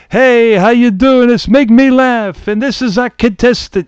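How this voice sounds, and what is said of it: Imitated New York accent. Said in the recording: “he has like a New York accent ... he's got more of a New York accent than I remember”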